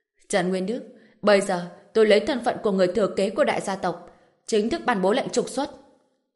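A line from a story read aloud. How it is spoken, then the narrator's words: Stern voice. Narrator (Vietnamese): nghiêm giọng nói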